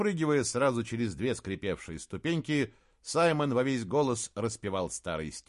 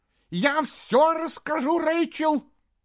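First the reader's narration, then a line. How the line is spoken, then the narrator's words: Shout. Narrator (Russian): прокричала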